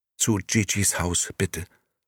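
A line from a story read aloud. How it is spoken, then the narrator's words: Plain. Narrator (German): antwortete Momo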